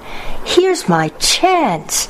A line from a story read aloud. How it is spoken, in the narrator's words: she cried